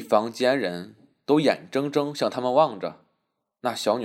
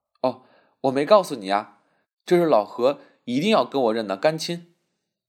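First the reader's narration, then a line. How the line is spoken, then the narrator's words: Laughing. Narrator (Chinese): 笑道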